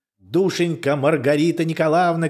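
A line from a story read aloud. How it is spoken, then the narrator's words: Shouting. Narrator (Russian): кричала Наташа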